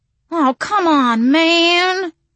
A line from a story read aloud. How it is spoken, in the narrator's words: Walter whined